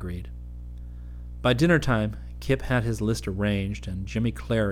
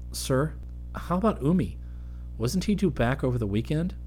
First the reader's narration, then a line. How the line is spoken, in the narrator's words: Kip asked him anxiously